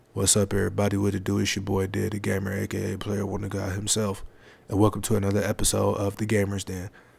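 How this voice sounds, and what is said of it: Very deep unprojected voice. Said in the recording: “my voice is naturally deep ... if I was to talk without projecting my voice, you wouldn't be able to understand what I'm saying ... That's how deep my voice is. No projection, no nothing.”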